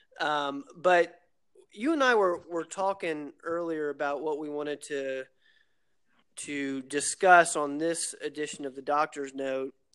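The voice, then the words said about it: Voice affected by a cold. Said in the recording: “Excuse my voice; I've got a bit of a cold.”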